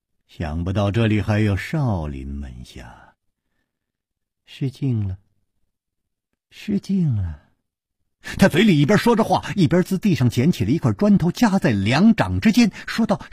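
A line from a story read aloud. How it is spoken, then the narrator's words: Chuckling, slow. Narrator (Chinese): 带着笑脸的那个人咯咯一笑，缓缓地说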